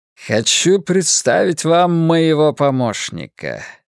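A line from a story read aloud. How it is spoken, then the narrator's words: Chuckling. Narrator (Russian): Флэг хохотнул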